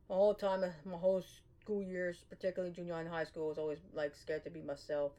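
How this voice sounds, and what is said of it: Strained, affected voice. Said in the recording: “It's fall here, so it's getting to my sciences, so you gotta excuse my voice. Also, yesterday I was singing a lot”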